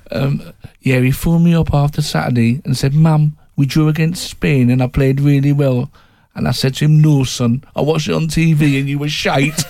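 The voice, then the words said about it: Imitating a woman's regional accent. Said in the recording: “Excuse my accent here. Apologies to the Welsh listeners.”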